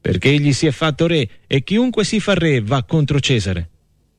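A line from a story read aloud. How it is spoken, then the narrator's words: Crowd shouting. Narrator (Italian): gridava il popolo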